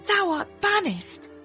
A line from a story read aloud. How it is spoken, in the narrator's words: she cried